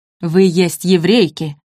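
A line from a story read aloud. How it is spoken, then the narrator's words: Barked in broken Italian. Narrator (Russian): рявкнула на хромом итальянском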